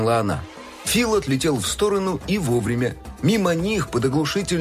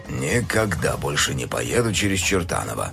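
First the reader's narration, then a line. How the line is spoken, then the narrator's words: Displeased mutter. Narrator (Russian): недовольно пробормотал он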